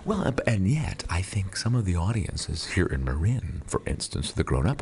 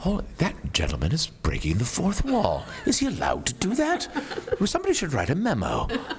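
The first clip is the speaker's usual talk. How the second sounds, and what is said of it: Put-on Mill Valley accent. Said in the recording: “That was a spot-on Mill Valley accent, by the way.”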